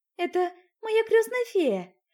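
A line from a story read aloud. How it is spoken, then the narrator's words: Joyful, smiling. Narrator (Russian): Радостно улыбнувшись, поделилась Золушка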